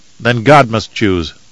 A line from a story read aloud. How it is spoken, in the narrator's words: Warwick said